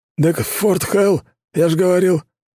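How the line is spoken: Puzzled grunt. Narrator (Russian): озадаченно хмыкнул Седовласый

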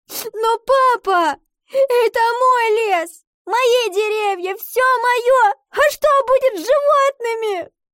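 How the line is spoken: Sobbing. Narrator (Russian): рыдала Ива

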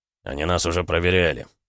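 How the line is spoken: Gloomy. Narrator (Russian): мрачно заметил Гаранин

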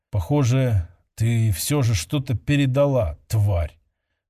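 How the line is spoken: Dull, muffled mutter. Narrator (Russian): Глухо пробормотал он

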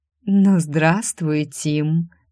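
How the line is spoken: Languid sing-song voice. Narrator (Russian): пропела томным голосом

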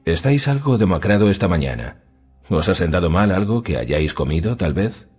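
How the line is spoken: Queen's friendly greeting. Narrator (Spanish): saludó la reina en tono afable

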